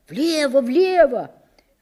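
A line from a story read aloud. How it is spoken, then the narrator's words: Joyful young boy. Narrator (Russian): Радостно подтвердил один белобрысый партизанчик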